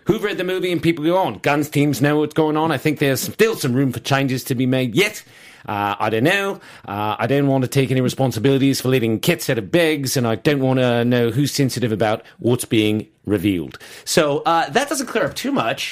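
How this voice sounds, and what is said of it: Spot-on impression of another person. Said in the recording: “a spot-on friggin' Jai impersonation ... It was just like as if Jai was in the room himself.”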